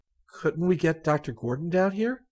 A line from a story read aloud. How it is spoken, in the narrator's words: Rick asked hesitantly